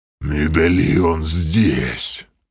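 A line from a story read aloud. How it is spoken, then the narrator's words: Inhuman hoarse rasp. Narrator (Russian): совсем уж нечеловеческим голосом прохрипел Грим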